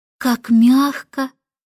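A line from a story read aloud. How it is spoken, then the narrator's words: Sighed. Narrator (Russian): вздохнула Джейн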